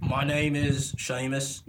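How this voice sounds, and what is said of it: Put-on Irish or Scottish accent. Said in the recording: “Who the fuck's the Irishman that just joined the podcast? ... That's a Scottish accent.”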